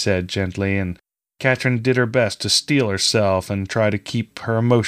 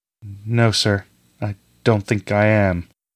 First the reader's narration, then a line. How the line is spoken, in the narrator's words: she replied sadly